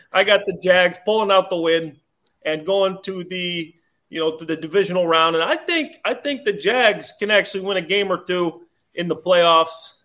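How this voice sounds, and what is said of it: Slight New Jersey accent. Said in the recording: “the little New Jersey accent ... New Jersey accent”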